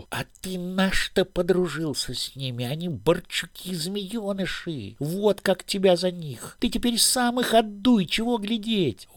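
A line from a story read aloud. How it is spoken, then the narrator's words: Long angry hiss. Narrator (Russian): Он шипел долго, обозленный побоями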